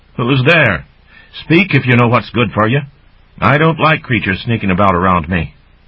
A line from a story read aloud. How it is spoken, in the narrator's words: she called out